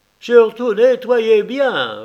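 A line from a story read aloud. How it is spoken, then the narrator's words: Blind man sneering. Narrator (French): ricana l'aveugle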